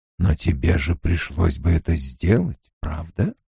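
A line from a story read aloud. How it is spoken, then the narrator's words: Quiet sarcastic whisper. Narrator (Russian): тихий голосок язвительно шептал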